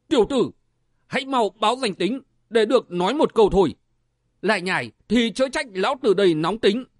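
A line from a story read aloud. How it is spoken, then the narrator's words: Angry shout. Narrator (Vietnamese): Người bên phải quát lên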